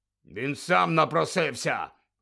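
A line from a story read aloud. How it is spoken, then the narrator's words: Barked. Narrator (Ukrainian): гаркнув Дадлі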